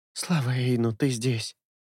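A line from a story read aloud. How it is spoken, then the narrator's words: Muffled indistinct whisper. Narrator (Russian): уткнувшись носом в шею, и неразборчиво прошептала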